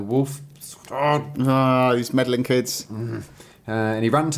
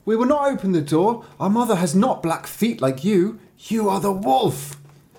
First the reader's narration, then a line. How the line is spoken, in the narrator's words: the children saw them, the paws, and cried